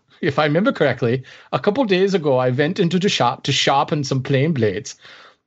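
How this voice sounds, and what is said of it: Put-on German accent. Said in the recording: “Am I offending all of Germany ... I don't know where that accent just went ... It's hard to maintain that long.”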